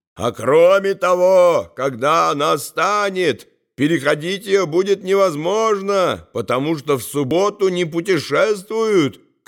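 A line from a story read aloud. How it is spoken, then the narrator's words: Shouted back, upset. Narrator (Russian): кричал он в ответ с огорчением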